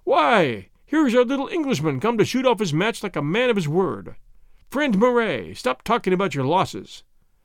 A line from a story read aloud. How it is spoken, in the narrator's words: he exclaimed in his jolly voice